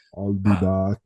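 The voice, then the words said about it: Arnold Schwarzenegger impression. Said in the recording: “his Arnold Schwarzenegger impersonation”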